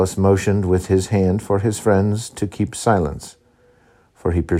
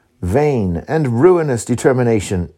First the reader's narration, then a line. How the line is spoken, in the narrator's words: exclaimed le Despenser